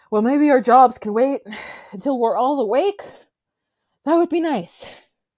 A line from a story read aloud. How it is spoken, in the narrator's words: still kind of panting, says